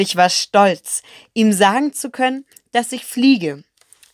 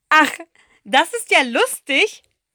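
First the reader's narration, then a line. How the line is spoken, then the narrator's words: Little boy, laughing fit. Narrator (German): der kleine Prinz bekam einen ganz tollen Lachanfall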